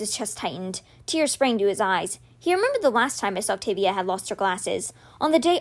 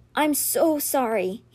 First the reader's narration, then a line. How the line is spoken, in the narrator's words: he choked out